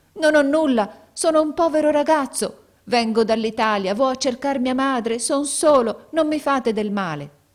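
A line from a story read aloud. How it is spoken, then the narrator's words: Shouted, frantic. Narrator (Italian): Allora egli smarrì la ragione e gridò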